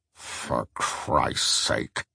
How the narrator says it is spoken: grumbled Truss

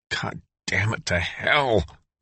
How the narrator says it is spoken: muttered Dale

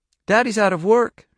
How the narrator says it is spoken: she said brightly

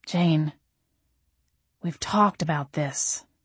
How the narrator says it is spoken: he said softly

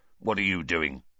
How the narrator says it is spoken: Filch snarled suspiciously

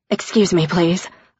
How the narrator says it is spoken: mumbled

